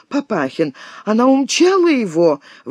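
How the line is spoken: Exclaiming. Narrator (Russian): воскликнула она

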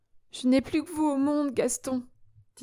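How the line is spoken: Said while sobbing. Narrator (French): disait-elle en sanglotant

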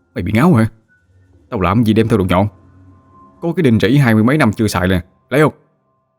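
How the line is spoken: Harsh gritted voice. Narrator (Vietnamese): Thằng Đô gằn giọng

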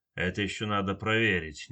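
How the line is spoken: Displeased mutter. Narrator (Russian): недовольно пробормотал капитан невидимых

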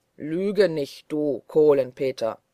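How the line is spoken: Thundering voice. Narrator (German): rief Holländer Michel mit donnernder Stimme

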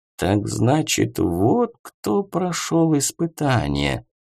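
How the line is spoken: Quiet. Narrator (Russian): тихо произнес он

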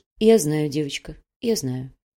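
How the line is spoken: Quiet. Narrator (Russian): негромко произнесла Даша

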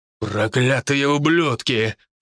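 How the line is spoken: Growled by a man. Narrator (Russian): прорычал мужчина

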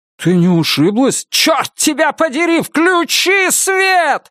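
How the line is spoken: Yelling. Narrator (Russian): завопила она

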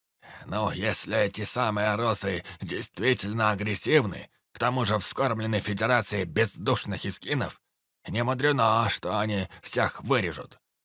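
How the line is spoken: Grumpy old man mumbling. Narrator (Russian): промямлил ворчливый дед, тот, что оказался самым старым из всех присутствующих

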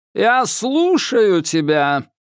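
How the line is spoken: Commanding, thunderous. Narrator (Russian): властно прогремел

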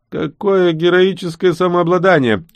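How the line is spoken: Mocking with clacking fangs. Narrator (Russian): черные клыки насмешливо клацнули

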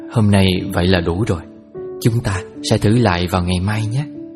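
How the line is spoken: Sighing mother. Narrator (Vietnamese): mẹ chỉ thở dài và nói

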